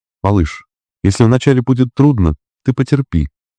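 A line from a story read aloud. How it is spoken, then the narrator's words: Gentle, affectionate request. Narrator (Russian): ласково попросила она Саранжа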